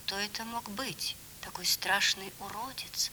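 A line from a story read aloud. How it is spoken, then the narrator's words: Quiet question. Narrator (Russian): тихо спросил принц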